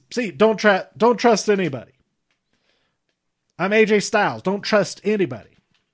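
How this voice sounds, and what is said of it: Slight Southern accent impression. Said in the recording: “my very slight Southern accent impression of AJ Styles”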